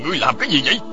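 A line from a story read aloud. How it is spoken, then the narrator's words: Angry shout. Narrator (Vietnamese): Bảo Thụ nổi giận, y quát lên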